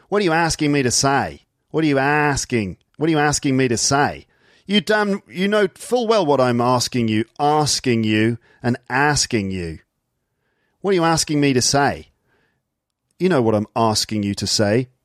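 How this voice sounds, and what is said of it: Put-on Australian accent. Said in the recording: “Hear the Australian accent?”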